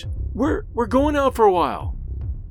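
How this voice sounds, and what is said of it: Wavering, shaky voice. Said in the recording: “in a wavering voice”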